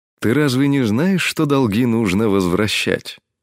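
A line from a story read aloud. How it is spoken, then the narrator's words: Friendly, lazy drawl. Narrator (Russian): Доброжелательным тоном, с линцой в голосе, проговорил Краз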